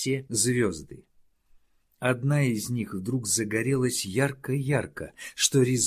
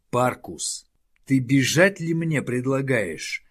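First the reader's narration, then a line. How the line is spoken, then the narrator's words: Growling. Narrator (Russian): зарычал Хауда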